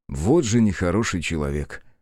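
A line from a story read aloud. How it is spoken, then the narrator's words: Sighing. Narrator (Russian): вздохнул я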